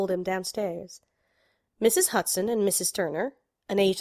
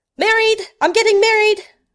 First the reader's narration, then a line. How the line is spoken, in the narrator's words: Sherlock cried out